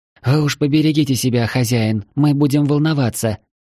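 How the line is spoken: Sweet little voice. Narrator (Russian): дополнила Ева своим прелестным голоском

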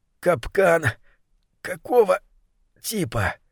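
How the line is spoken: Mumbling. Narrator (Russian): Забормотала питательная

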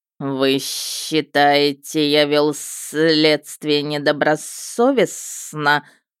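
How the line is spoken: Hissed. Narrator (Russian): прошипел Нак

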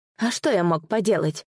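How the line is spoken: Anguished moan. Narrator (Russian): сокрушенно простонал Дзани

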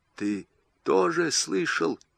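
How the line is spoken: Whisper. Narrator (Russian): шепнул Маст

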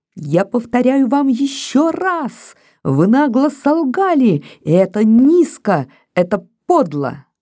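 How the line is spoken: Piercing child's shout. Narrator (Russian): мальчик вдруг пронзительно прокричал

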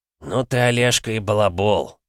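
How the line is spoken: Grumbling. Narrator (Russian): проворчал Витаутович

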